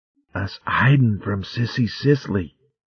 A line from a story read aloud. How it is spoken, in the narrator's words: Arvin whispered furtively